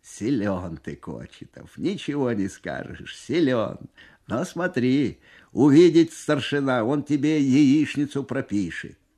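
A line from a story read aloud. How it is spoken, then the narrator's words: Amused, after hearty laughter. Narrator (Russian): Насмеявшись всласть и вытирая на глазах слезы, командир взвода лейтенант Бесов говорит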